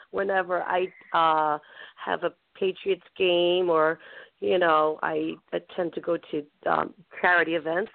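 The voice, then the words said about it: Worn, under-the-weather voice. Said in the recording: “my voice is a little bit under the weather, as usual... my voice tends to go away and come back another day”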